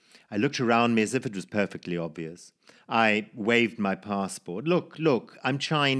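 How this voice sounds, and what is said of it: Usual voice. Nothing is said of it.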